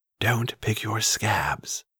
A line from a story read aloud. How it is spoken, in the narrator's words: Vraska said quietly